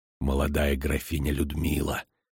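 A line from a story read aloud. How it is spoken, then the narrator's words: Low-voiced explanation. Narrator (Russian): вполголоса пояснил Диего Марс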